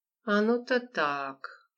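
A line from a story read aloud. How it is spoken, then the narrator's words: Drawn out. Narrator (Russian): протянула Лола через некоторое время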